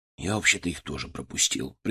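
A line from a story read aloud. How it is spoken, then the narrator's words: Quiet admission. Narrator (Russian): признался он тихо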